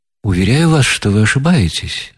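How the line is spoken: Calm and polite. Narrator (Russian): спокойно и вежливо отвечал князь

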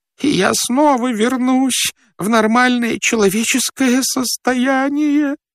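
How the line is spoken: Babbling. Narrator (Russian): лепетал он

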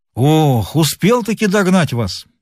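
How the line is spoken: Exclamation. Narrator (Russian): воскликнул Горохов

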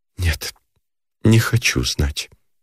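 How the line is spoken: Whisper. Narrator (Russian): проговорила она шепотом

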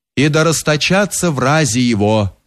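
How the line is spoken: Deep bass roar. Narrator (Russian): заревел басом Замятня Опалев

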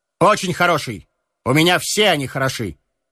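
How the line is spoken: Self-assured tone. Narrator (Russian): ответил Стельковский своим обычным самоуверенным тоном

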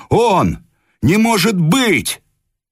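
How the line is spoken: Crowd shouting. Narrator (Russian): Люди кричали

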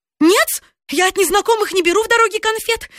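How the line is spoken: Sudden scream. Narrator (Russian): закричала вдруг востроносая

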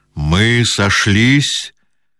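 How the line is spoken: Muffled, hollow. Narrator (Russian): глухо промолвил Базаров

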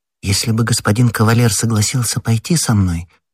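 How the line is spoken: Timid female voice. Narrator (Russian): робко сказала Кэти

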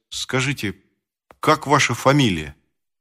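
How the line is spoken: Stammering. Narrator (Russian): Володя произнес, наконец, запинаясь

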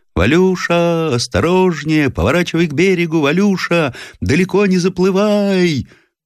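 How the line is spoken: Old man shouting over waves. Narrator (Russian): Профессор сложил рупором ладони и, стараясь победить озорной ветер и шум накатывающейся волны, закричал

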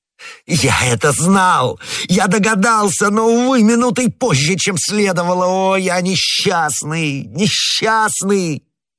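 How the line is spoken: Anguished shout. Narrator (Russian): лорд Винтер закричал

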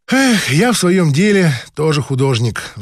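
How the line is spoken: Sighing. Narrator (Russian): вздохнула проктолог

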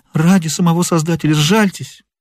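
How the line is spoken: Pleading exclamation. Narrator (Russian): воскликнул он

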